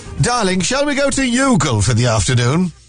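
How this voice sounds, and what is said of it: Put-on posh Bridgerton-style accent. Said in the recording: “That's my Bridgerton accent coming through.”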